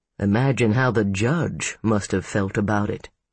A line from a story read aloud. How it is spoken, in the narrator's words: Jay said dryly